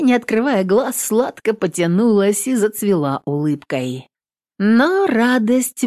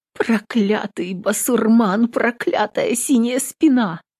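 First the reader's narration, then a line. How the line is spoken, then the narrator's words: Whispered. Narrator (Russian): прошептала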